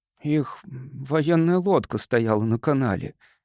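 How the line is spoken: Hopeless tone. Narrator (Russian): сказал он безнадежным тоном

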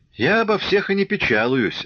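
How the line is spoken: Laughing. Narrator (Russian): рассмеялся Ермаков

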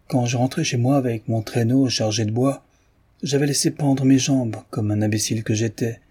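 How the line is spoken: Gruff reply. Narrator (French): répliqua Tikhon d'un ton bourreux

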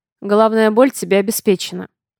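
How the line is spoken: Dry. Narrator (Russian): сухо комментирует Север

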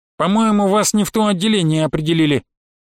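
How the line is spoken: Nasal. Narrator (Russian): прогнусавила медсестра

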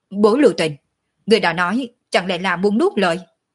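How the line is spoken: Furious choked speech. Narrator (Vietnamese): Ninh Thiền Nhai hầu như hộc máu, giận dữ nói

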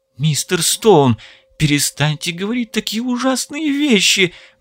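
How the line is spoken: Pale pleading. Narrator (Russian): взмолилась побледневшая Лара

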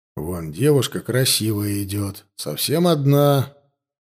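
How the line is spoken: Grumbling. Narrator (Russian): проворчал голос

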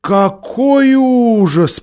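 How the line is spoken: Drawn-out drawl. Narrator (Russian): протянула Лазарелина

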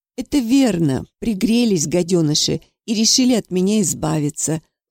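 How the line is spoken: Gentle, sly. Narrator (Russian): ласково сказал Павлов

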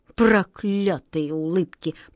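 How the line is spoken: King, through gritted teeth. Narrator (Russian): процедил сквозь зубы король

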